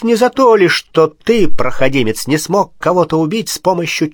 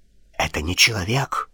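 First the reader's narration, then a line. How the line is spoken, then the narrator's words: Strangled whisper. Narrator (Russian): сдавленным шепотом произнес Руджиери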